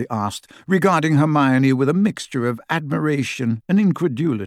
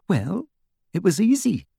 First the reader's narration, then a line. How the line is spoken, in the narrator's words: said Hermione in a small voice